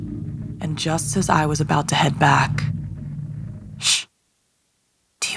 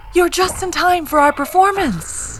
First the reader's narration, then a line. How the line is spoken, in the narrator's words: the ringmaster said, his lips stretched over his yellowing teeth